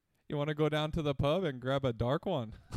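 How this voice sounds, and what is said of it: Put-on Irish accent. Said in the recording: “Irish accent”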